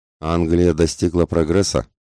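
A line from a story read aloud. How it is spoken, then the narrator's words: Half-mocking. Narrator (Russian): сказал реманец полунасмешливым тоном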